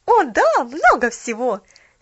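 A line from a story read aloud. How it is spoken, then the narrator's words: Happy exclamation. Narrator (Russian): счастливо воскликнула Поллианна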